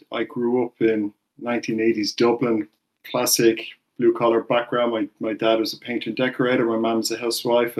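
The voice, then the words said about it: Irish accent. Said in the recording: “as you can tell from the accent, I'm Irish”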